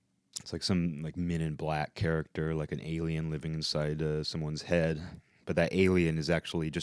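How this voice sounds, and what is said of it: Usual voice. Nothing is said of it.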